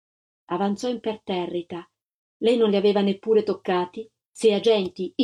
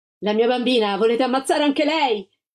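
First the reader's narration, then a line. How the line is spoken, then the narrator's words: Shouting. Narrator (Italian): la Gilda gridò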